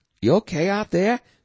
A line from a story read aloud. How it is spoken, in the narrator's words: his daughter asked urgently